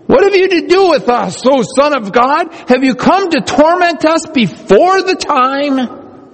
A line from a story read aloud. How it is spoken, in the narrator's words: they cried out